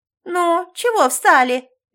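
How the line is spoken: Man's shrill address. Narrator (Russian): визгливо обратился мужчина

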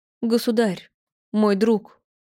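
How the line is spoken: Trembling, faltering babble. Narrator (Russian): пролепетала Лопухина дрожащим голосом

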